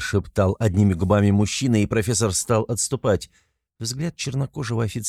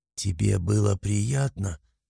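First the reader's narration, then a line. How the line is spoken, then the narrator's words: Hoarse, aroused woman. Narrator (Russian): Почти хрипя от накатившего возбуждения, проговорила женщина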